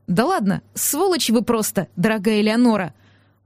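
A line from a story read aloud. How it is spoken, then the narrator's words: Grumpy mutter. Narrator (Russian): Буркнула я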